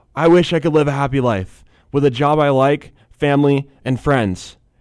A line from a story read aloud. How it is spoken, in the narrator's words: Dwight proceeds to yell